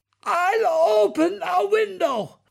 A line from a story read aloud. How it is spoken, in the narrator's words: croaked Dad, which is the sound you make if you try to talk without breathing in after holding your breath for 90 seconds